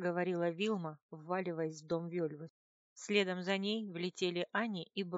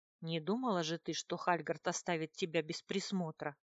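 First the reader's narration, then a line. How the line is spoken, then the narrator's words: Smirking snort. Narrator (Russian): хмыкнул Бруно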